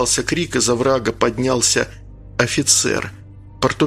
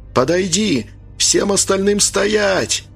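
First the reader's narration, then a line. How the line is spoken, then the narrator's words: Shouted. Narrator (Russian): прокричал Анатолий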